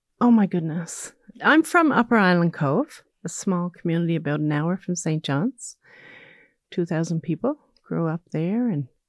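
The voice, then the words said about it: Lilting Newfoundland accent. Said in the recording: “hear the lilt in your voice, I think, that gives you away as a Newfoundlander”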